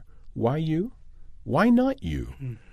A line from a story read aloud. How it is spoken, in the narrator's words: very, very tenderly but firmly the need to say to her